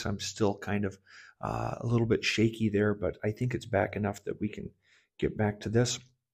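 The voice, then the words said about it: Slightly shaky, unwell voice. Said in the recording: “I've been sick. You might hear it in my voice.”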